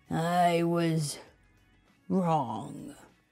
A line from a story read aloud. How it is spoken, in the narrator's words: he mumbled